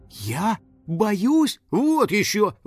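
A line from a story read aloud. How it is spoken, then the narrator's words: Exclamation. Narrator (Russian): воскликнула Кристина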